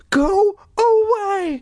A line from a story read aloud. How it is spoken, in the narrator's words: Dory cried in a trembling voice